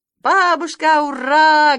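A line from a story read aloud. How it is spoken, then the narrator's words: Loud joyful shout. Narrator (Russian): громко и радостно закричал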